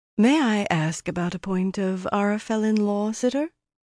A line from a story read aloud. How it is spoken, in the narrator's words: Meidani said, as smoothly as if that were what she had been intending to say all along